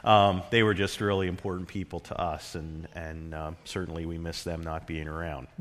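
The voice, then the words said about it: Choked-up, emotional voice. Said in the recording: “I'm getting choked up a little bit now.”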